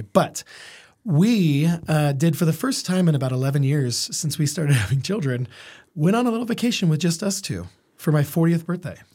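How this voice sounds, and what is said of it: Congested, stuffy-nosed voice. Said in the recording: “sorry about my voice. I'm a little congested, so it's going to sound funny.”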